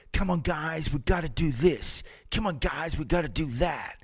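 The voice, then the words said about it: Half American, half Australian accent. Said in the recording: “In his half American, half Australian accent.”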